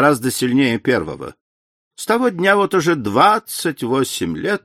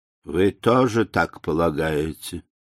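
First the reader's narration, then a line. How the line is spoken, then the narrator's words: Dejected question. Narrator (Russian): упавшим голосом спросила мисс Палмер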